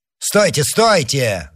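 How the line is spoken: Shouting. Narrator (Russian): закричал тот, которого назвали монсеньором

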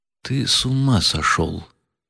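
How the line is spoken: Sudden whisper. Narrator (Russian): прошептал вдруг Птицын

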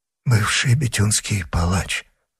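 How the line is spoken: Muttering, straining to recall. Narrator (Russian): пробормотал Гримо, напрягая память

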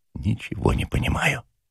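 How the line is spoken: Quiet. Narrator (Russian): тихо сказал Ежевикин

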